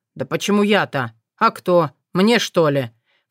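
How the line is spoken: Peevish snort. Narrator (Russian): фыркнул вредный Сокол

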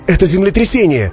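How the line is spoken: Shouting. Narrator (Russian): закричал Саша

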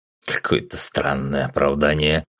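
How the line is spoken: Snort. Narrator (Russian): хмыкнул Артур

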